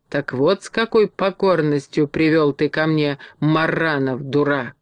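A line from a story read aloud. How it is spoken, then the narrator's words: Angry hiss. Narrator (Russian): злобно прошипела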